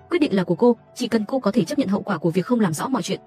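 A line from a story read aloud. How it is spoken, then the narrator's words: Cold. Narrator (Vietnamese): Vẻ mặt tôi lạnh lùng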